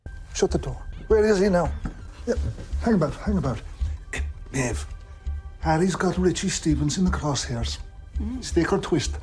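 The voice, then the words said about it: Irish accent, supposedly Kerry. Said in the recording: “Conrad Harrigan, the Irish mobster, has a Kerry accent. Now, is this a Kerry accent?”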